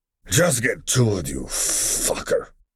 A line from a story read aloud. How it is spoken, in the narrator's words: Crosshair growled back at him